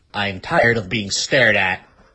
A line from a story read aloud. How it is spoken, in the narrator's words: Matt growled